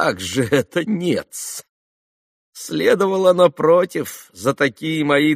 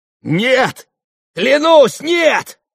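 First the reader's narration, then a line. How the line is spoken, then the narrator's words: Yelling through gritted teeth. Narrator (Russian): завопил, скрежеща зубами, Иван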